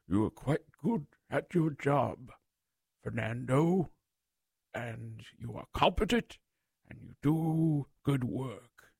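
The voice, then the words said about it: Weak Gandalf impression. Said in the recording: “that wasn't a good Gandalf impression”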